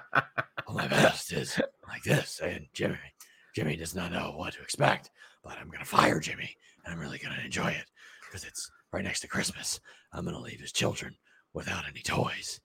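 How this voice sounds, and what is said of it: Breathless imitation of another person's voice. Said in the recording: “your best Vinnie Mac impression? ... you sounded like Vince McMahon after you just run on the treadmill for 40 minutes.”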